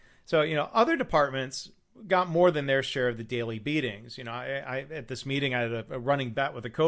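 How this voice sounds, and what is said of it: Usual voice. Nothing is said of it.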